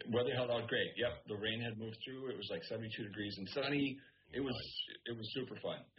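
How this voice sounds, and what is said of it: Hoarse, tired voice. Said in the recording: “I'm exhausted... See, I'm hoarse.”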